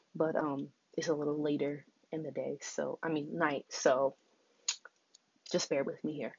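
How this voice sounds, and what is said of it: Whispering. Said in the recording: “sorry I'm whispering”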